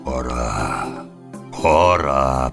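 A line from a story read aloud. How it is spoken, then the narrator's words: Booming drone. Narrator (Russian): прогудел Трибор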